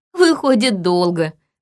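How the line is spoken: Laughing. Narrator (Russian): засмеялась она

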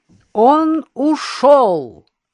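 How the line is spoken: Loud. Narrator (Russian): громко проговорил Иннокентий

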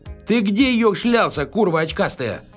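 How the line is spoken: Yelling in face. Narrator (Russian): орал Фомин ему в лицо

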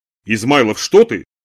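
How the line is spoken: Nearly shouted. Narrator (Russian): почти крикнула Хана

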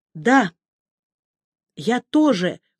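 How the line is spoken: Forced out. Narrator (Russian): выдавила я

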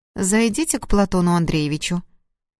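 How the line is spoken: Dry tone. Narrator (Russian): сухо произнесла

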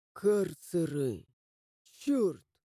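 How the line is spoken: Barely audible curse. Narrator (Russian): Еле слышно выругался я

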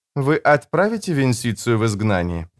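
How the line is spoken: Plain. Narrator (Russian): спросила Джессика

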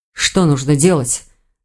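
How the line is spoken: Muffled mutter. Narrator (Russian): глухо пробормотал Рейн

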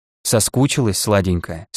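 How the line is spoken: Gentle, affectionate. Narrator (Russian): спросил ласково

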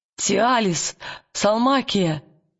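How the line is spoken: Trembling call. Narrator (Russian): дрожащим голосом позвал он

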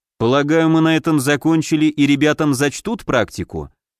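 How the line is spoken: Calm question. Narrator (Russian): спросил я, спокойно

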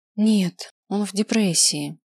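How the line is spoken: Sigh. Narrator (Russian): вздохнула Лера

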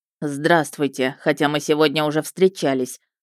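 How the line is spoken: Dry reply. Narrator (Russian): сухо ответил Мердок

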